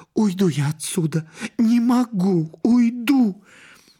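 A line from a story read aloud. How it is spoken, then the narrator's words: Sobbing whisper. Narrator (Russian): Стелла всхлипывала и шептала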